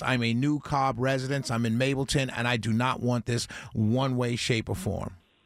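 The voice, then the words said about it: Slight New York accent. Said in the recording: “do I detect a small New York accent in ... Your voice? ... Absolutely. I'm a New Yorker through and through, sir.”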